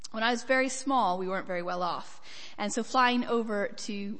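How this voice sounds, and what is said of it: American accent. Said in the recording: “From my accent, I grew up in America, although I do get a surprising number of punts for Scottish, Irish, and even West Country.”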